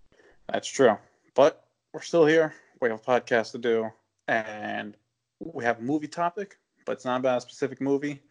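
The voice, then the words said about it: Sick, under-the-weather voice. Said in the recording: “If you can't tell by my voice, I'm a little under the weather.”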